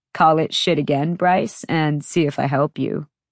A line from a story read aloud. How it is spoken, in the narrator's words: said coolly